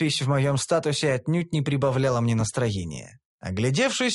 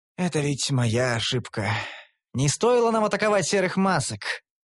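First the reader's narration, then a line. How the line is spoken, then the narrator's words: Sad, sighing. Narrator (Russian): Вздохнул я тоскливо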